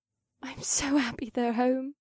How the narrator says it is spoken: Asta whispered, and I turned to see she had tears in her bright yellow eyes

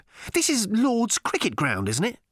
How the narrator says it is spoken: snapped Arthur

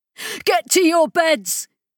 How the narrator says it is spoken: hollered into the comms

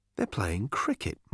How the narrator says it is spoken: muttered Arthur

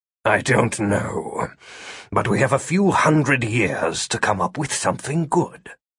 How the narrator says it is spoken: Philip muttered

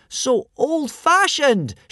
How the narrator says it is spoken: shrieked Hiccup hurriedly

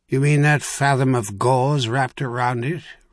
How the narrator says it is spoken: Rockpoint asked dryly

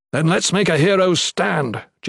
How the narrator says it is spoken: Gerund yelled

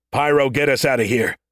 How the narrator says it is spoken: Stacker bellowed through the comm

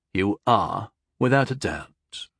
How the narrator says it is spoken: he said slowly and solemnly

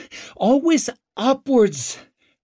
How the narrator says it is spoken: gasped Ricker

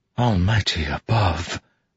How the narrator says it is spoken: Navani whispered

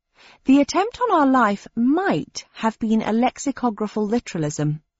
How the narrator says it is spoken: I said

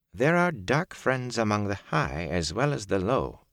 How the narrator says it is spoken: Varen said smoothly

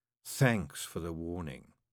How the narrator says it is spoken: Scarlet purred

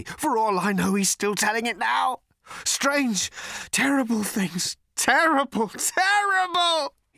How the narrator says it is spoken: he screamed

